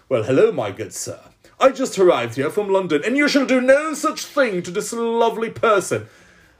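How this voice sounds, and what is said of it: Put-on posh British accent. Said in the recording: “Why not the British accent? ... Why not go full colonial”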